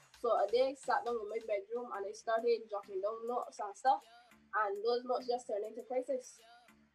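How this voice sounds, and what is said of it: Heavy Barbadian accent. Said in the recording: “accent is a little bit heavy, right? The Bayesian accent”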